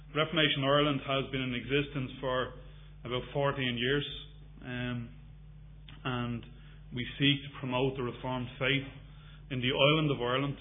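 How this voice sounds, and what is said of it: Non-local accent. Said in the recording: “You probably guessed by my accent, I'm not from these parts.”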